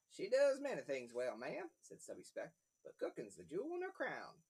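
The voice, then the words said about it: Cowboy character voice. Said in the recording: “I gave him a British accent, but he's wearing a cowboy hat, so maybe his voice should change... so he sounds like this”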